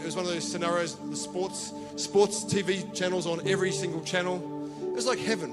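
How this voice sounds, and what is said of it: Australian accent. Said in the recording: “he heard my accent. He goes, are you from England? I said, no, I'm from Australia.”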